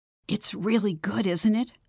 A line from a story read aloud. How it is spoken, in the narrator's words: whispered